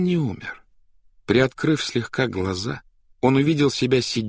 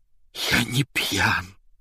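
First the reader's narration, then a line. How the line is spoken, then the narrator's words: Hoarse. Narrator (Russian): хрипло ответил Степа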